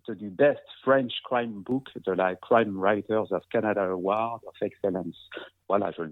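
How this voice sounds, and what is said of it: English titles in French accent. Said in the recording (French): “dis avec mon bel accent français”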